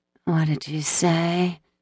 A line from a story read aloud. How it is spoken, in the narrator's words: she murmured, still drowsy from his bite